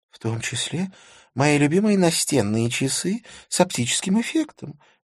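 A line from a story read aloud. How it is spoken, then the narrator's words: Sorrowful sigh. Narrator (Russian): горестно вздохнула Захира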